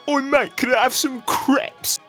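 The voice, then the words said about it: Put-on British accent. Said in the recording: “You can't say crepe in a British accent without sounding sensible.”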